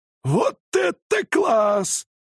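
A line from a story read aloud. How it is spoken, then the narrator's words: Admiring exclamation. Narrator (Russian): с искренним восхищением воскликнул Джонс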